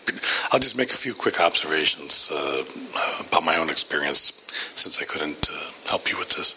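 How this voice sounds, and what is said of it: Weak, strained voice. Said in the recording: “his voice is not very good ... yesterday completely lost my voice ... I think I'm a little bit better”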